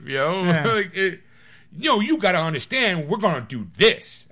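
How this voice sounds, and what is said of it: Exaggerated angry over-the-top voice. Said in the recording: “slow down with the accent ... He's not always that angry ... too over the top”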